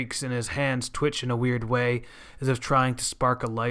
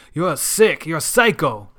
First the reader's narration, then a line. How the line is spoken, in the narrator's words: The disturbed man continues to growl like a rabid dog